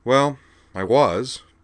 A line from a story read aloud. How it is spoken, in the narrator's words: Dee Dee replied, sighing